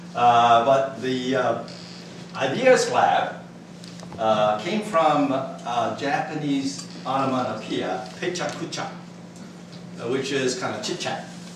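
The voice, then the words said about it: American accent. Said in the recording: “a Japanese with an American accent”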